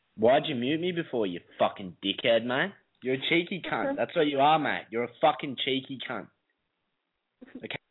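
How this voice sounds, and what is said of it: An attractive accent. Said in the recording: “hot accent”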